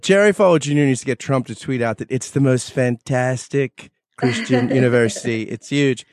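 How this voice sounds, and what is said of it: Imitates another person's voice. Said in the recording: “You've got that accent or that voice down pretty good. ... I work on my Trump a lot”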